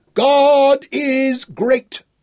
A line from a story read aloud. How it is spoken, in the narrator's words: Dorian roared